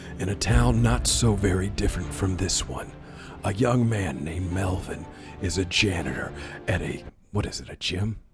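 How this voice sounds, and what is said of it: Movie trailer narrator voice. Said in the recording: “I'll do the movie voice.”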